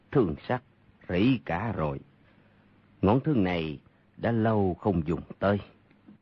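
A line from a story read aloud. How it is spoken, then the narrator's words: Sighing. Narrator (Vietnamese): thở dài nói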